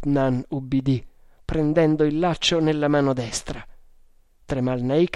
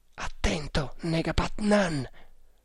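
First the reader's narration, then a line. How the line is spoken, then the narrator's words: Whisper. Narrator (Italian): bisbigliò Tremalnake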